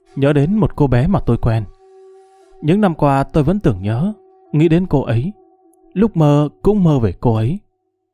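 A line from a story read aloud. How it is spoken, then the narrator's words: Sighing. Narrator (Vietnamese): Lục Tiệm thở dài nói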